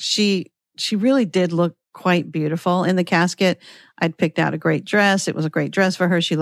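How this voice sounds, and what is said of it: Usual voice. Nothing is said of it.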